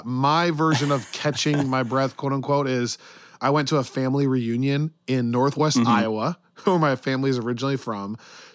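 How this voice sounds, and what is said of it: Hoarse, worn-out voice. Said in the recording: “as you can probably hear, my voice is totally shot ... So my voice is totally shot.”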